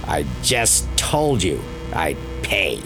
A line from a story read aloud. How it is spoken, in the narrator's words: he hissed